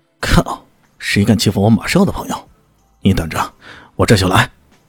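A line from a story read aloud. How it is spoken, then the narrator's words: Angry cursing. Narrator (Chinese): 那边怒骂一句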